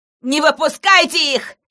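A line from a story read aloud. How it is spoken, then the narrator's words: Hysterical shout. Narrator (Russian): истерично крикнула Кристина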